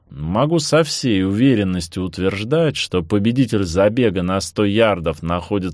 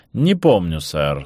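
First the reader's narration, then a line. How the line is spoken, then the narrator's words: Dry. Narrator (Russian): сухо сказал Дживс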